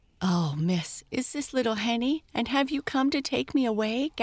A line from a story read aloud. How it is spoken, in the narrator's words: gasped Bertha